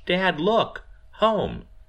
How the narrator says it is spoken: Miranda exclaims

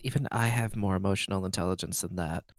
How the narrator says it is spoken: Galen mutters under his breath

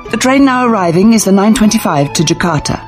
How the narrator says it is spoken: the tannoy blurts out

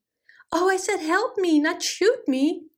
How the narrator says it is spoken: cried Uncle Butter

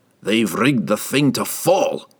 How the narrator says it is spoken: Brunner snorted

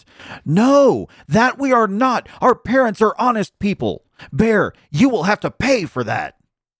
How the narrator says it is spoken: the young wrens heard that, they were frightfully angry and screamed

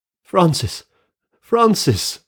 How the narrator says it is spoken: I cried

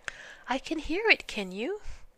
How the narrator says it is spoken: said Piglet anxiously

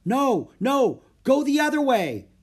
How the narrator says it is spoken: cried Jack

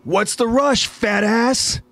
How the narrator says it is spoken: off in the distance somebody yelling out to Flagel

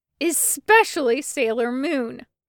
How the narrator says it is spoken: Ace yells

